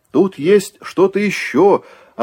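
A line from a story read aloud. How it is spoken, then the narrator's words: Joyful shout. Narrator (Russian): обрадованно крикнул Кузьма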